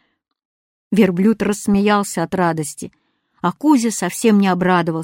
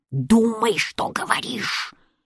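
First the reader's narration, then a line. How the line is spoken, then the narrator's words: Displeased hissing. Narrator (Russian): недовольно шипел кот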